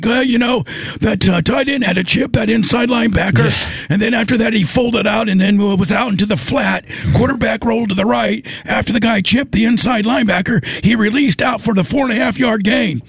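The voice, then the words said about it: Imitates another person's voice. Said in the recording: “Might be your best impersonation.”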